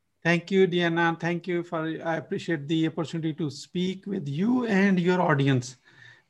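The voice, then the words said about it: Pakistani accent. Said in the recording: “From my accent, you probably can figure out I'm originally from Pakistan”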